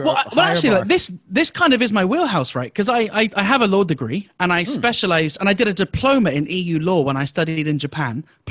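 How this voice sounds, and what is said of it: Speaks with a noticeable accent. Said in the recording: “You have an accent, so we respect your accent.”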